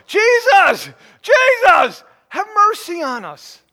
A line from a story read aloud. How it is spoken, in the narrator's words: cried out all the more